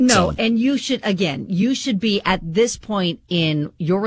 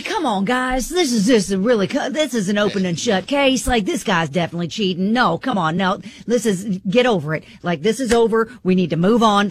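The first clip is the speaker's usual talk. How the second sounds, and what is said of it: Impression of a radio show caller. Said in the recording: “a good impression of him?”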